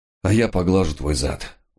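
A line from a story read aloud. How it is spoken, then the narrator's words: Weary agreement. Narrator (Russian): устало согласился я, не имея ни сил, ни желания спорить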